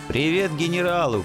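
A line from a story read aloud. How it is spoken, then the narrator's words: Shouted after someone. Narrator (Russian): крикнул я вслед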